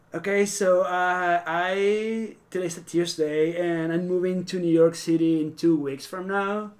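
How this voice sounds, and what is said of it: Venezuelan South American accent. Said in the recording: “I'm actually Venezuelan. ... I'm a South American guy, and that's where my accent's coming from.”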